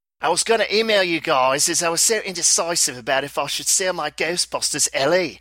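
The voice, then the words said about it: Put-on Australian accent. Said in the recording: “he requested I do the Australian accent on this... read this out in your best Aussie accent.”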